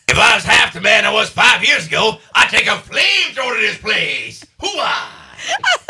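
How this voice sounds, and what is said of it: Imitates another person's voice. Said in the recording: “Can I do my Al Pacino for you? ... That is good. ... It's good.”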